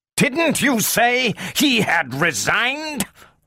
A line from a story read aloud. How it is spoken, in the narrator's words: roared Bogart